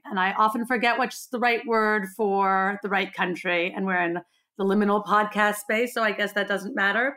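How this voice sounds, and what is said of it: Hybrid American-Australian accent. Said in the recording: “I have a very strange hybrid accent because I am a dual American-Australian citizen”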